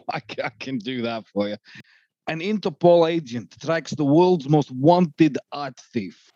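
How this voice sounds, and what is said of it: Bad put-on Russian accent. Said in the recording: “Very good bad Russian accent.”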